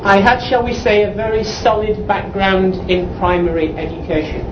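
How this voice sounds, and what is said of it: English accent. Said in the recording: “I'm obviously from England. I hope you can tell by my accent.”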